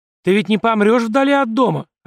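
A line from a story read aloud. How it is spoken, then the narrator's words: Desperate shout. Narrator (Russian): отчаянно крикнула она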